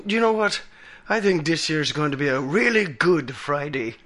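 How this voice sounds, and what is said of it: Bad put-on Irish accent. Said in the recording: “That was my Irish accent. All right, 2 out of 10. That was terrible. It was awful.”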